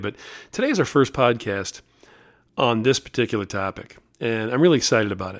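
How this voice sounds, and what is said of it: Hoarse, strained voice. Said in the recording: “my voice is a little bit shot. I've been screaming and yelling at too many baseball games”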